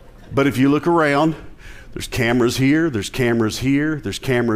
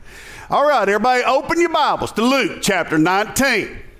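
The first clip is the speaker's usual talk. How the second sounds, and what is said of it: Put-on accent. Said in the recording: “I don't know why I used that accent.”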